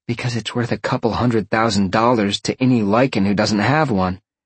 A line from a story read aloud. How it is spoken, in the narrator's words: Roxy sighed